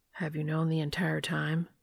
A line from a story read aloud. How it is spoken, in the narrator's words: A pained expression crosses Dean's face, and his voice is quiet when he asks